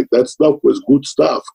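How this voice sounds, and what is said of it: Imitated Greek accent. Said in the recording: “because he had that Greek accent”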